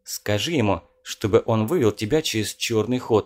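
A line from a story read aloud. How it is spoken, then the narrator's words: Plain. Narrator (Russian): сказал Колин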